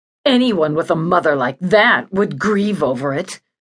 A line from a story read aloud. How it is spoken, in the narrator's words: she snarled